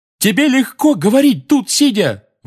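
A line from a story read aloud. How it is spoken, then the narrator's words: Roar. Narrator (Russian): взревел Фред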